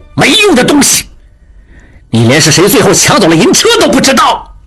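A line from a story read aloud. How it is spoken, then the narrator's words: Furious. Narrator (Chinese): 金勇怒不可遏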